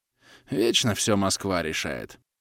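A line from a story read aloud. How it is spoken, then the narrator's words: Snorting grunt. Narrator (Russian): хмыкнул Расулов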